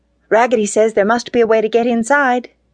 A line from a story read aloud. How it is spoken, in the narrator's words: cried all the dolls